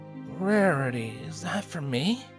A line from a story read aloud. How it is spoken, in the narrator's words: Spike mumbled in his sleep